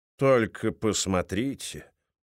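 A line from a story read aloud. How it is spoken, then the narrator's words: Tired. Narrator (Russian): устало сказал Бойс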